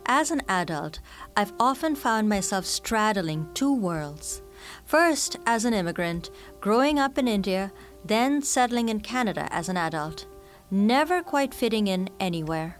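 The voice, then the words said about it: Mixed Canadian, British and Indian accent. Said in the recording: “my accent, which is supposedly a mishmash of Canadian, British, and Indian”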